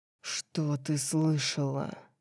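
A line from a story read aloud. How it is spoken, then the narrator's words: Growled. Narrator (Russian): Прорычал он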